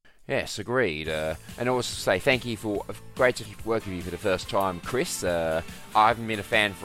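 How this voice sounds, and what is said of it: Usual voice. Nothing is said of it.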